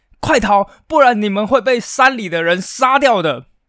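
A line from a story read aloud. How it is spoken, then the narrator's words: Urgent shout. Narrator (Chinese): 其中一个人 便立刻朝着他们大喊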